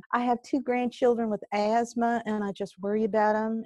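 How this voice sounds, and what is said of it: Exaggerated Southern accent. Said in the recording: “Forgive me, please, for the horrible Southern accent, but it's so much fun.”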